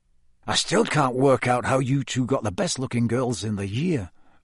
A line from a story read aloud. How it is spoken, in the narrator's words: muttered Dean